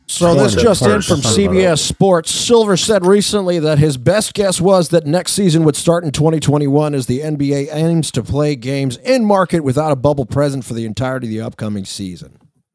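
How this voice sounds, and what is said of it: Generic sports announcer voice. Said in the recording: “You sound like John Anik. ... my generic fucking announcer voice”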